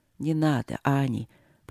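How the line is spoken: Soft gentle speech. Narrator (Russian): проговорил он мягко

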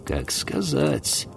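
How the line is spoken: Absent-minded mutter. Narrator (Russian): пробормотал Олки, как будто думая о чем-то своем

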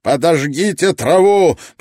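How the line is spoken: Roared command. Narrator (Russian): проревел полковник Мэтьюс

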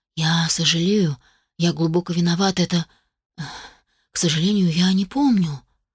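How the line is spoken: Crushed whisper. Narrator (Russian): прошептал граф убитым голосом

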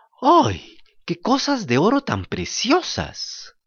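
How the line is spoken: Woman exclaiming. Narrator (Spanish): ella exclamó

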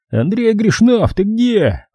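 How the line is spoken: Wild yelling. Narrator (Russian): Вадик начинает орать дурным голосом

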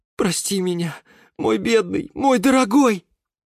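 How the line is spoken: Wailing and sobbing. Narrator (Russian): причитал и всхлипывал Юра

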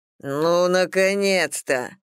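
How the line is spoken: Growl. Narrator (Russian): прорычал Ситрик

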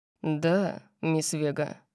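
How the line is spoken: Calm, wry. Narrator (Russian): Спросил он совершенно спокойно, с кривой улыбкой

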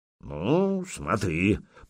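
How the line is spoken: Old commander grumbling. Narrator (Russian): проворчал воевода

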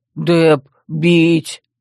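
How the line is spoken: Nasty voice. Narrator (Russian): Верфокс проговорил противным голосом

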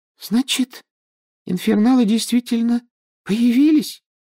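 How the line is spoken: Thin little voice. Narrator (Russian): тоненьким голоском спросила Парвати Патил

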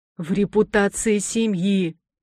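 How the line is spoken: Irritated hiss, old man. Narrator (Russian): прошипел раздраженно дед

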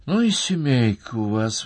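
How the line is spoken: Sighing. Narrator (Russian): вздохнула Настя

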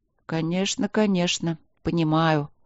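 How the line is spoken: Touched mumble. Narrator (Russian): пробормотал мэр, тронутый вниманием мягкой маленькой королевы

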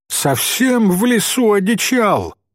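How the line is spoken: Loud agitated shout. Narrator (Russian): опять громко крикнул председатель, понебратствуя от волнения

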